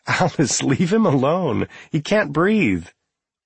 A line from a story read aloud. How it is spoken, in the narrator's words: Lynn was laughing as she said